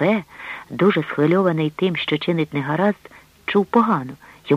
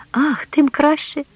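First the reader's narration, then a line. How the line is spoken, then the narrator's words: Exclaimed. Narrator (Ukrainian): вигукнула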